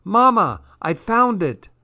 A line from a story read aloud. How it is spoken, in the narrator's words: Irene shouted